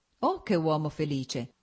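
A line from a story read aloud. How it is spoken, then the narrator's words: Exclamation. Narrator (Italian): esclamò Stepan Arkadic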